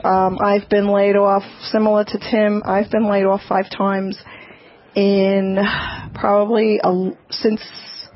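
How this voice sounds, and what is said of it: Regional American accent. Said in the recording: “Listen to that accent.”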